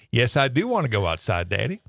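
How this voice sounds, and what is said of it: Put-on southern accent. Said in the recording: “she had a bit of a southern accent ... she answers in a southern accent”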